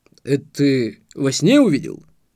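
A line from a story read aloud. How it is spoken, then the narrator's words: Smirking snort. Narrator (Russian): хмыкнул Марк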